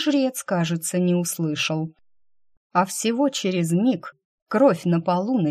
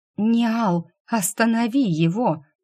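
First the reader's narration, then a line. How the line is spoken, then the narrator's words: Trembling whisper. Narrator (Russian): дрогнувшим голосом прошептала я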